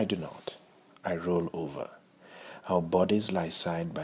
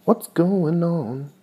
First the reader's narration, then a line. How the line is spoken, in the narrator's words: Jackie asks cheerfully, imitating the song on the air